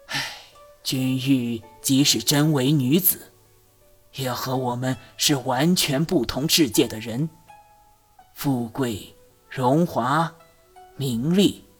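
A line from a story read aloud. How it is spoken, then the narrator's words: Sighing. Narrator (Chinese): 朱丞相叹道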